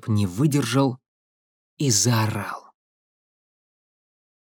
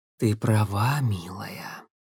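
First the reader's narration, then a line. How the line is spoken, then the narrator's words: Hidden voice whispering. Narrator (Russian): прошептал кто-то за троном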